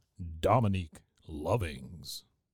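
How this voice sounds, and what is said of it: Warm radio announcer voice. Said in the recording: “in my best radio voice impression ... That was warm. ... It was very warm.”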